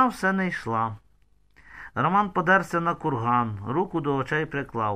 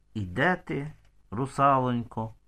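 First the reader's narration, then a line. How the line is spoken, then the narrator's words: Whispering. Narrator (Ukrainian): Мамка з татком шепотілися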